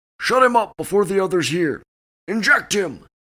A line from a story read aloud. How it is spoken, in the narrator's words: The creature suddenly shouted